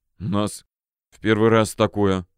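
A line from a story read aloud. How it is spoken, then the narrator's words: Policeman mumbling. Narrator (Russian): бормотал милиционер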